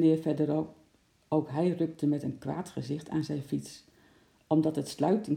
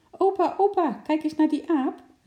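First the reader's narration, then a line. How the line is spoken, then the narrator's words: Cheerful call. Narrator (Dutch): riep Paultje opgewekt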